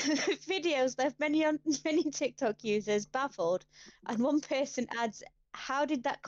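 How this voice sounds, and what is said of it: Usual voice. Nothing is said of it.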